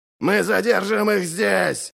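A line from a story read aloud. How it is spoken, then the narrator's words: Growling. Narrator (Russian): рычал Ральф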